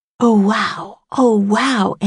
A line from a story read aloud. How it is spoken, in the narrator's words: Annie whispered